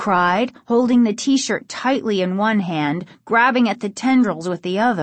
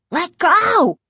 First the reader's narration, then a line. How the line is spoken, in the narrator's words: Casey cried, finally finding his voice